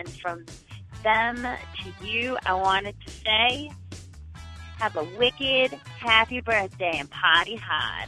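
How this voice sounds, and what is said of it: Put-on Boston accent. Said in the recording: “the best Boston accent ... gave us hers”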